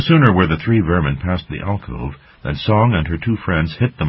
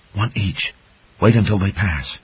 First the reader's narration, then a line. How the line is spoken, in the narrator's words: Song whispered